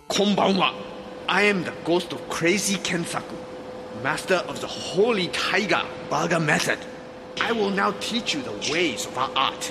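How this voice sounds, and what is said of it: Stereotyped fake Japanese accent. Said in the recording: “that's sort of a racist accent, but it's clearly a white guy”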